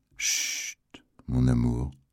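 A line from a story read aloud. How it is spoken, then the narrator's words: Low reply. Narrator (French): lui répondit Misery à voix basse, elle aussi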